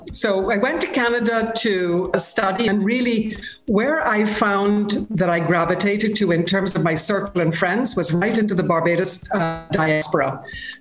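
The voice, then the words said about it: Barbadian accent with slight Canadian influence. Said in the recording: “you can hear a bit of a funny accent coming through”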